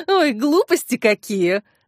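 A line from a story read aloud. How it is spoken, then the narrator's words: Laughing. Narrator (Russian): рассмеялась Зинаида Петровна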